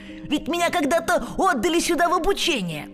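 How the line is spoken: Highly agitated exclamation. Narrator (Russian): Скрудж в неописуемом волнении воскликнул

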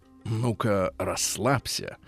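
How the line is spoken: Whisper. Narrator (Russian): зашептала

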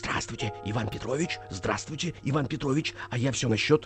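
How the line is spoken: Prompter's loud whisper. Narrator (Russian): Суфлер своей будки громко зашептал

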